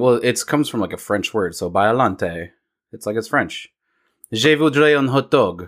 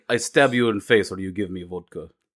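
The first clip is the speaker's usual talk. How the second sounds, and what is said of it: Put-on Russian accent. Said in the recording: “The Russian accent is like”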